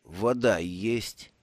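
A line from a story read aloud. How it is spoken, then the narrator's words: Slurred mumble. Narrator (Russian): заплетающимся языком пробормотал Бруто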